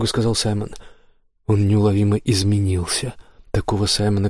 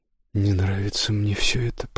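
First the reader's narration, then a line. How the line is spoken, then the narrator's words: Mutter. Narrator (Russian): пробормотал Кристофер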